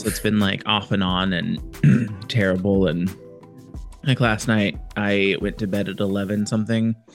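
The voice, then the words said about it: Congested voice with a cold. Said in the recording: “I have a cold, so I'm annoyed and have been coughing”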